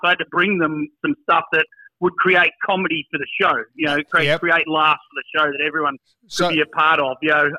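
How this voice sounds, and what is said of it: Australian accent. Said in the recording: “the Aussie accent helped ... I had the Aussie accent”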